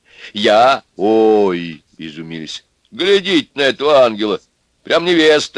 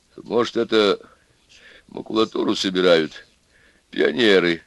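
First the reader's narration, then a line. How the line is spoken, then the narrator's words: Quiet, shaken. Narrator (Russian): тихо сказал бледный Аристарх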